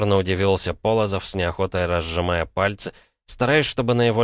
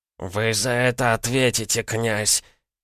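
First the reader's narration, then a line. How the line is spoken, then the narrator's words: Hoarse wheeze after coughing. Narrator (Russian): как следует прокашлявшись, смог просипеть Орлов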